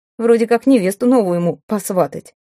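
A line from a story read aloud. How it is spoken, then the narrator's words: Snorting smirk. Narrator (Russian): хмыкнул богатка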